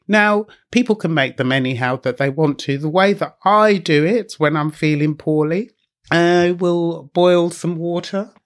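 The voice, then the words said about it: Hoarse voice from a cold. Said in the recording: “my voice is a little bit on the hoarse side and I have got a bit of a cold”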